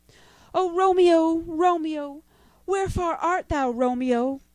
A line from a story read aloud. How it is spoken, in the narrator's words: cried the girl